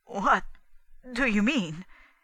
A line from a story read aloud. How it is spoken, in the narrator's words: said in an unsteady voice